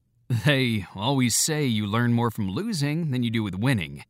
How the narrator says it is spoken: notes McEnroe with a wry laugh

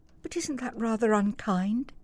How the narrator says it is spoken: said Helen softly

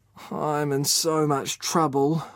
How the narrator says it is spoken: groaned

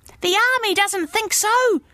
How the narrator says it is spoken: shouted Justine

